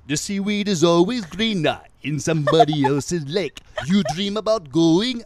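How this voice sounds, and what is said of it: Stereotypical Jamaican accent, sung. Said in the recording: “He's doing a stereotypical Jamaican accent ... Sebastian the Crab”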